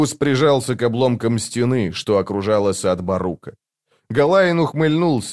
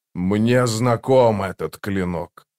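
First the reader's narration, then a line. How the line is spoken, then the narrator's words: Demon growling. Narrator (Russian): прорычал демон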